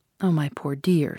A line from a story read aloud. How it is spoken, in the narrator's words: she said, in the first soft tones which had fallen from her in my hearing